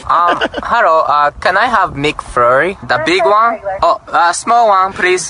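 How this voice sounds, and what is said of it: Fake Japanese accent. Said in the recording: “Pretty good accent too. I mean, he's half Japanese, so you'd imagine one of his parents is Japanese, so that accent would come naturally to him.”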